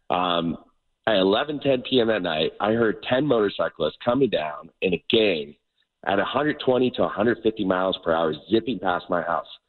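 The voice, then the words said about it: Hoarse, partly lost voice. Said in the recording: “I actually lost my voice a little bit. I don't know if you guys can hear it... I blew my vocal cords... for days I've lost my voice.”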